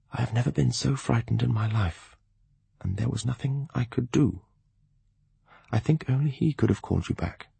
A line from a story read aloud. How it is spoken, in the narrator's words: he whispered softly